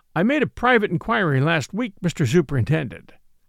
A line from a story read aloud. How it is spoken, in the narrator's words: he said